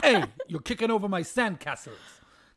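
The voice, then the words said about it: Italian-American accent. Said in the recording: “That's American Italian”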